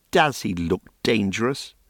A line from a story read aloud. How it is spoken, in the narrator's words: Aha scoffed